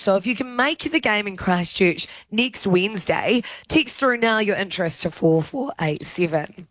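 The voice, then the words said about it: Hoarse, strained voice. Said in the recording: “I am losing my voice.”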